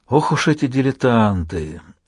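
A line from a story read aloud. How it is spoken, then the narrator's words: Tired voice. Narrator (Russian): усталым голосом ответил он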